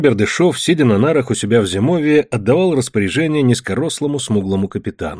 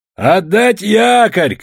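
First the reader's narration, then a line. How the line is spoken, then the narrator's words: Captain's shout. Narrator (Russian): крикнул капитан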